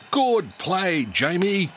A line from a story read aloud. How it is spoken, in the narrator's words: shouted Coach Wilson